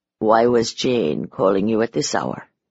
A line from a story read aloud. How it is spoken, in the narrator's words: He said softly